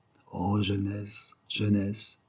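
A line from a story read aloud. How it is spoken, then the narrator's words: Tender tearful murmur. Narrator (French): il murmura, les yeux mouillés d'attendrissement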